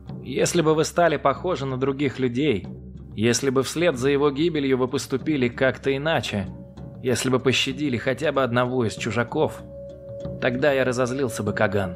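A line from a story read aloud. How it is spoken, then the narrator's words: Plain. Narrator (Russian): ответил вождь Кышика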